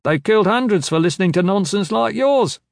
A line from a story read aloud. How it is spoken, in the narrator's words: someone shouted